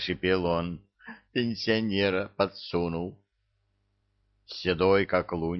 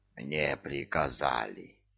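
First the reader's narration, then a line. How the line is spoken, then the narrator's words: Wheezing. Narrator (Russian): просипел заслуженный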